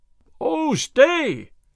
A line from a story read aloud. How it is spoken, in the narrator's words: shouted Will Stutely after the sheriff